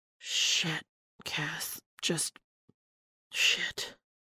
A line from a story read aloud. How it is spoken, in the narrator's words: Dean whispered